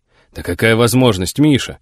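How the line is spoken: Surprised exclamation. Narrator (Russian): удивленно воскликнул Федор Иванович

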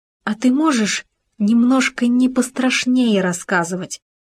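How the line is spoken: Pleading gopher. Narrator (Russian): взмолился суслик

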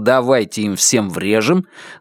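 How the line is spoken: Plain. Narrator (Russian): Лестер спросил

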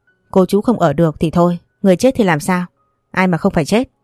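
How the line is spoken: Angry. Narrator (Vietnamese): Bác Thành tức giận

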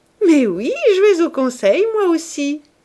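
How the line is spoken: Laughing reply. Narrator (French): répondit-elle en riant

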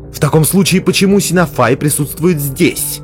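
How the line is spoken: Irritated question. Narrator (Russian): раздраженно спросила Мелис

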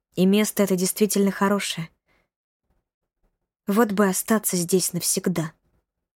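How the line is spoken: Whisper. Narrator (Russian): прошептала Бажена

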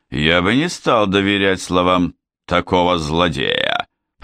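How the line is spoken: Grumbling. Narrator (Russian): проворчал Милс

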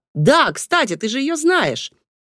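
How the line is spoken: Exclamation. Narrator (Russian): воскликнул он

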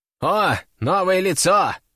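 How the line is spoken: Snort. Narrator (Russian): хмыкнул он

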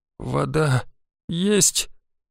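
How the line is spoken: Hoarse question, girl. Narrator (Russian): хрипло спросила девушка

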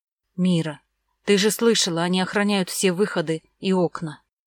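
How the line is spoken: Sighing. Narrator (Russian): вздохнула Вера

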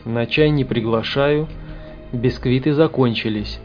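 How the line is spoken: Gloomy joke. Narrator (Russian): мрачно схохмил командир группы

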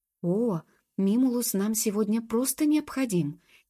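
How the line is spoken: Fervent anxious exclamation. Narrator (Russian): горячо воскликнула Джуб, больше всего тревожась, что принц откажется ждать чародея, и весь ее замысел рухнет

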